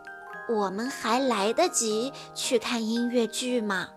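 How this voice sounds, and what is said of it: Quiet, hushed question. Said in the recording (Chinese): “小声问道”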